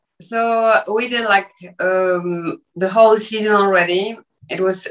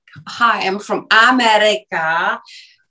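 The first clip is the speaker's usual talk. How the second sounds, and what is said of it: Exaggerated American accent. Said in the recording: “I need to speak in English with American accent. Like very exaggerated American accent.”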